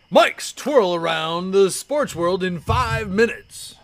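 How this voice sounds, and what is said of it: Announcer-style radio voice. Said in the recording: “Is that my good radio voice? ... Yes, an excellent radio voice”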